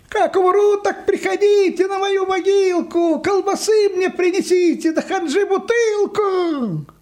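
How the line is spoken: Distant shouting. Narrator (Russian): Йоська кричал где-то уже в отдалении

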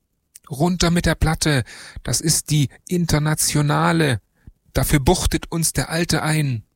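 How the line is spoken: Screaming. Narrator (German): Jo, schrie

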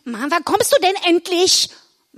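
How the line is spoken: Female call. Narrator (German): rief sie

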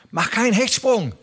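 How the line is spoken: Shouted. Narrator (German): rief er

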